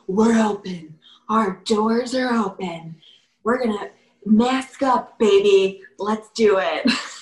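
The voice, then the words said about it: Sultry woman's late-night phone voice. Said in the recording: “you put like a woman's like, late night phone voice on there.”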